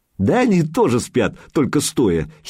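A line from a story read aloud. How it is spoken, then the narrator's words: Giggling kid. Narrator (Russian): хихикнул малец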